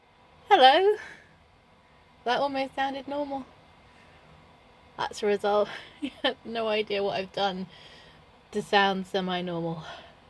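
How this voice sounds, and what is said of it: Congested, strained voice. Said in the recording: “my voice is, well, hay fever is kicking my ass”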